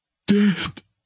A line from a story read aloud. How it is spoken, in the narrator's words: she moaned